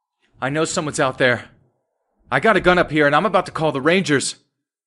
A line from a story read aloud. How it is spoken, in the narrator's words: shouted something like